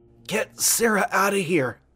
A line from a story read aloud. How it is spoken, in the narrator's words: she whispered to me